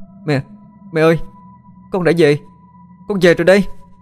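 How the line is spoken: Joyful loud shout. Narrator (Vietnamese): Nó hét vang

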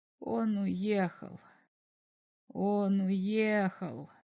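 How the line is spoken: Quiet mutter. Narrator (Russian): тихо пробормотал Берлах

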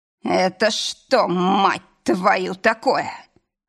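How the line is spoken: Roared. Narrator (Russian): взревел

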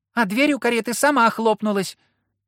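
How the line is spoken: High squeaky voice. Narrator (Russian): пропищал чей-то высокий голос

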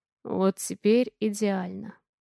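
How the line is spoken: Hoarse. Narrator (Russian): хрипло говорит Алекс

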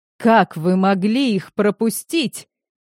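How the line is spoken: Growled. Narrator (Russian): зарычал

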